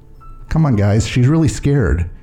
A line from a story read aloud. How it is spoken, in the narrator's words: Hune Wook says, fidgeting nervously